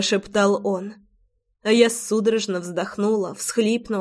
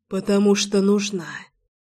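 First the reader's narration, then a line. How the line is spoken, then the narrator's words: Breathed against lips. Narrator (Russian): выдохнул он в мои губы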